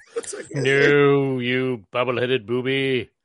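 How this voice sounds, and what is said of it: Theatrical English voice, Lost in Space character. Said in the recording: “rich English accent... very well-spoken. He's very theatrical... like that guy from Lost in Space”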